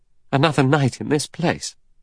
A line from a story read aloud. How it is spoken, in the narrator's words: Vera cried